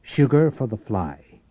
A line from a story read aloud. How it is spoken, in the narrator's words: he said